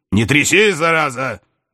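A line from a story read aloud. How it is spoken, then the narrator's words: Nervous shout lying prone. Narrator (Russian): нервно прикрикнул лежащий на животе Аболенский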